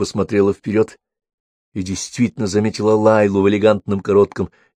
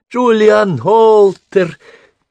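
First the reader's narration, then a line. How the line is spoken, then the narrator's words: Thin-voiced shout. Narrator (Russian): тоненьким голоском закричала Лайла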